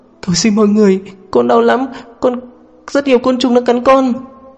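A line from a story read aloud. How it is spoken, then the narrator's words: Sobbing. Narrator (Vietnamese): cô vẫn không ngừng cự quậy nức nở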